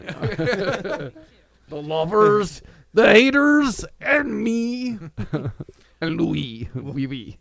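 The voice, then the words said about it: French-accented Kermit the Frog voice. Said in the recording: “When you do your French accent as Kermit, you just kind of sound like Rolf the dog.”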